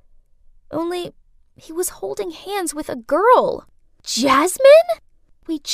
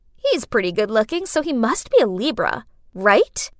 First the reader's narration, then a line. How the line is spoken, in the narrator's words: I chuckled